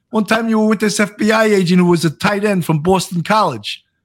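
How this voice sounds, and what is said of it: Brooklyn accent. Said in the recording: “I'm talking with a Brooklyn accent now, and I'm not from Brooklyn.”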